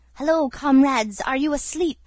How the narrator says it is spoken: cried the gypsy

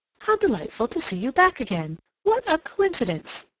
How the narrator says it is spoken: she exclaimed

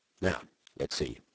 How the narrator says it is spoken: said Holmes

